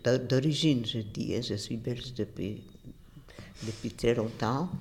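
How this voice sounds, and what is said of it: Polish foreign accent in French. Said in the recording (French): “Mon accent étranger, parce que je suis d'origine pas belge, de Pologne ... c'est repérable par tout le monde que j'ai un accent étranger”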